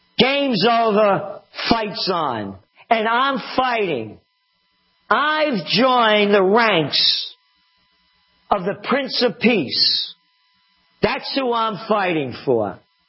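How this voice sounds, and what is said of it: Loud, angry raised voice. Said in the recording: “lower your voice ... Don't get angry”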